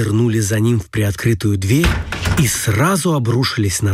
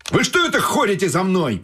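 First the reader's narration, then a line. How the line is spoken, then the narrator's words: Sudden shout. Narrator (Russian): закричал вдруг стрелок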